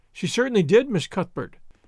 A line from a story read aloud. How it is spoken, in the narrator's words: corroborated Flora Jane earnestly